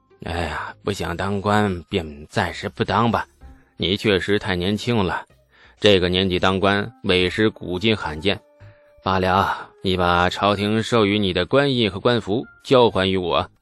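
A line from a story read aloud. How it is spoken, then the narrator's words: Sighing. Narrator (Chinese): 刘神威叹了口气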